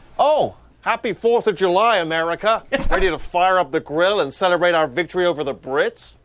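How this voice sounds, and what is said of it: Convincing American accent. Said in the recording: “incredibly convincing American accent”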